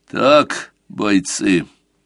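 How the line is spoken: Through gritted teeth. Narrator (Russian): Едва сдерживаясь, процедил он сквозь зубы

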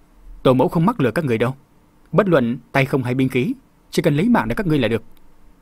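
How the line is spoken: Cold sneering laugh. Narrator (Vietnamese): Tống Ngọc Thu cười nhạt

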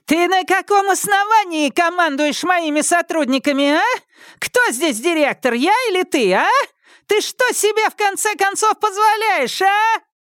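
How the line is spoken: Furious yelling. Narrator (Russian): Она с покрасневшим от бешенства лицом заорала

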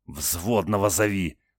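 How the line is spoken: Angry hiss. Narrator (Russian): со злостью прошипел

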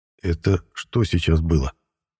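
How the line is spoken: Quiet, puzzled. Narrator (Russian): Тихо озвучил я свое непонимание

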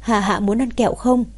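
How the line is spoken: Laughing question. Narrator (Vietnamese): Hạ Diệp Chi bật cười hỏi cô bé

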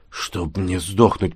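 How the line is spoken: Muttering. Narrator (Russian): пробормотал Якушев

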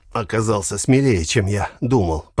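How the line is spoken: Hoarse wheeze. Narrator (Russian): прохрипел Сергей

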